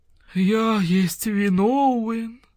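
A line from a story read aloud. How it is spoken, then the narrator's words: Moaning. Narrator (Russian): простонал муравьед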